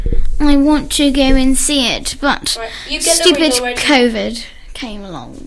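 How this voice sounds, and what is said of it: Posh upper-class British accent. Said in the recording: “why am I doing this accent? ... You sound like the queen on the crown”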